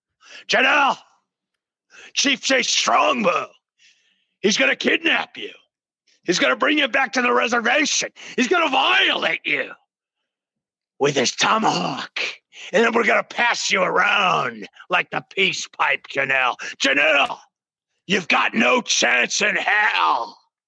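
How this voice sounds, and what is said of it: Vince McMahon impression. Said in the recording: “That was a pretty damn good impersonation ... Vincent Kennedy McMahon”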